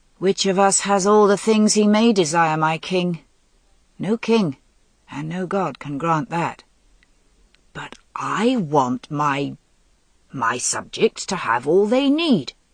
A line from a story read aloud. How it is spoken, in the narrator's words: repeated thickly